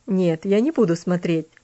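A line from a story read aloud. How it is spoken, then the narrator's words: Laughing. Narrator (Russian): рассмеялся он над ее переживаниями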